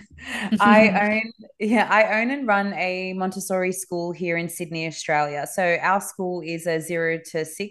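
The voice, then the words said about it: Australian accent. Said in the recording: “I live in Sydney, Australia, as you can tell from my accent.”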